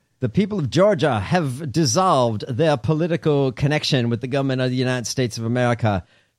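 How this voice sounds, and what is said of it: Genteel Southern accent. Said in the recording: “your Southern accent is so genteel”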